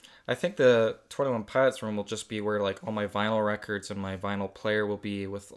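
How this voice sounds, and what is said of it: Usual voice. Nothing is said of it.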